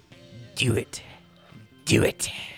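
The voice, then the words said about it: Impression of a film villain's voice. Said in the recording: “my impression of Emperor Palpatine when he's trying to get Anakin to kill Mace Windu”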